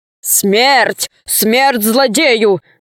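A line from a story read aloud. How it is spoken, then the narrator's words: Shouting wolf. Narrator (Russian): закричал волк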